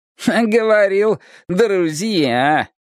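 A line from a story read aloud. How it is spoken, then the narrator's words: Smug electronic snort. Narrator (Russian): хмыкнул электронный нахал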